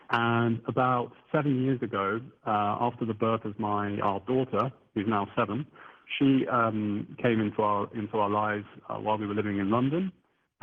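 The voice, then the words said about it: Southern English accent. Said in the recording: “as you can probably tell from my accent, I'm originally from England, the south of England, UK”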